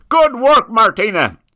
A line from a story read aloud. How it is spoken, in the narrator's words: shouted the sheriff